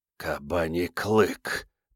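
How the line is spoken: Whispered. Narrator (Russian): прошептал Вайтан

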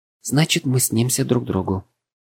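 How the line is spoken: Quiet repeating. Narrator (Russian): тихо повторила Лана

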